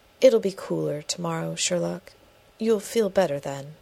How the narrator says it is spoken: with a sigh says gently

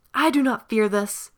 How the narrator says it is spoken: cried at full voice

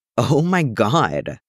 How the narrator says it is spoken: Steve laughed

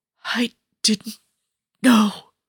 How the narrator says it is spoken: he gasps out, choking on his own blood

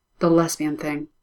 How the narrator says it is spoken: Alexander tells her in an undertone

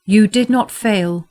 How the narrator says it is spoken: he said, and his voice rang out across the chamber with all the authority of a steward and a prince, with all the authority of the living

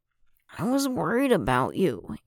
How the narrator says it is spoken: Anakin mumbled into the scarf, his pout hidden by the material now wrapped around him

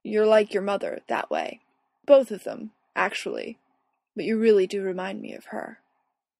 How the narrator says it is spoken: Michael says gravely

